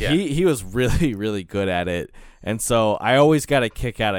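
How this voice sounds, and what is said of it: Usual voice. Nothing is said of it.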